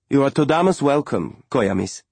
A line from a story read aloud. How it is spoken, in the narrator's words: Malika said